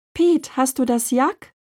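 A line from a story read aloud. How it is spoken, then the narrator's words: Calling from front yard. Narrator (German): rief Lin vom Vorgarten aus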